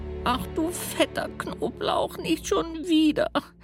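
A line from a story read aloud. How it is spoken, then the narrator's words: Wailing voice. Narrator (German): jammert eine Stimme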